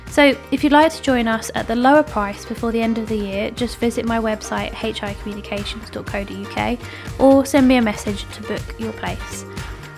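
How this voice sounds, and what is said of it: Croaky, rough voice. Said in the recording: “I feel like my voice is really croaky today.”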